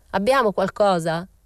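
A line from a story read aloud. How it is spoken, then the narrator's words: Old man shouting. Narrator (Italian): gridò il vecchio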